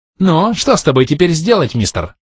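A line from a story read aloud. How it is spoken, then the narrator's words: Shrill squealing question. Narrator (Russian): Все так же визгливо спросил порося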